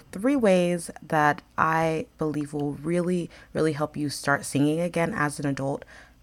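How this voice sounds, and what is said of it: Slightly hoarse, tired voice. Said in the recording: “my voice is a little bit tired ... a slight hoarseness”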